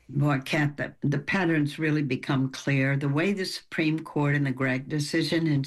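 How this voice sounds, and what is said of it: Southern American accent. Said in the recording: “You got my southern accent.”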